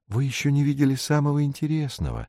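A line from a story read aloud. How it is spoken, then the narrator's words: Soft, gently interrupting. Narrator (Russian): мягко остановил его комментатор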